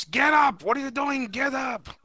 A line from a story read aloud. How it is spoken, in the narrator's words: like a loving husband, he's yelling through the ropes